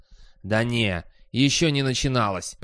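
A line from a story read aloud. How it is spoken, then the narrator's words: Hissing. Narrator (Russian): прошипел профессор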